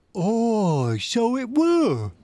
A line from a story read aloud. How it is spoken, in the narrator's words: cried Morgan